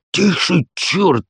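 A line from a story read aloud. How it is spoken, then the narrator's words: Hissed. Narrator (Russian): зашипел на него один из компаньонов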